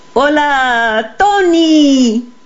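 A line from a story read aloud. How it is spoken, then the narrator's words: Giants shouting. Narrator (Spanish): gritaron los gigantes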